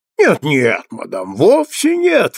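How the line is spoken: Exclaimed. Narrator (Russian): воскликнул Клеттербук

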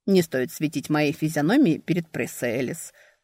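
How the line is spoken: Chuckling. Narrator (Russian): хохотнул

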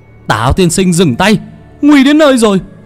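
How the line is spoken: Alarmed shout. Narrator (Vietnamese): La Quý hét lên

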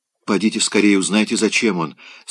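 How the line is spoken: Plain. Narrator (Russian): сказала она

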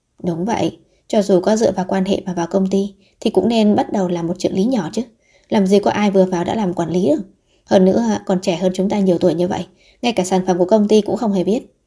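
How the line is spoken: Muttered. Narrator (Vietnamese): Có người lẩm bẩm

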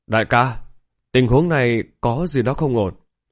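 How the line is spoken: Quiet, low voice. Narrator (Vietnamese): Kỵ sĩ cấm quân bên trái nhỏ giọng nói

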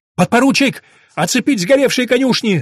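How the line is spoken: Shouting again. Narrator (Russian): снова закричал Пашутин

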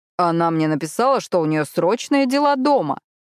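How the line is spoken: Displeased exclamation. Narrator (Russian): недовольно воскликнул ангел

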